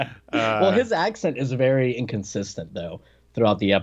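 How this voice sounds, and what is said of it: Usual voice. Nothing is said of it.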